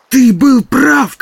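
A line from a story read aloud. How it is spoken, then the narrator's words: Shouted, then louder. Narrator (Russian): крикнул Барни, затем закричал еще громче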